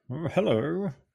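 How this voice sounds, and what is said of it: Impression of Lew Wallace. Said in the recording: “That was my Lew Wallace impersonation.”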